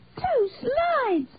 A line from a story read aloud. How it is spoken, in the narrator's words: Zachary squealed